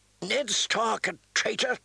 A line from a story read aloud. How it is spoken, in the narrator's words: Ser Jorah snorted